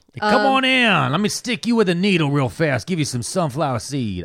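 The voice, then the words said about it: Put-on Louisiana accent. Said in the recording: “I don't know why he's speaking like a Louisiana man.”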